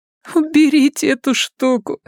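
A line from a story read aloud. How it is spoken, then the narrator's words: Crying and laughing. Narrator (Russian): сказала Рэчел, плача и смеясь одновременно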